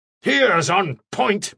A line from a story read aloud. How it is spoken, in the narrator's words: Mannering shouted